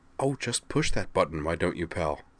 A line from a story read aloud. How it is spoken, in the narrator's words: said Nall in a delighted murmur